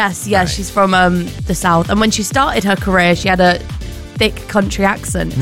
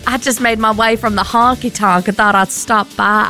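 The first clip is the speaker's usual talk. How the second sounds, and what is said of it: Put-on Southern Belle accent. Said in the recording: “can you do a Southern Belle accent”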